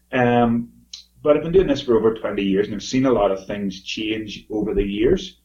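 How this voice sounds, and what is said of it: Strong accent. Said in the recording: “my accent is quite strong at times”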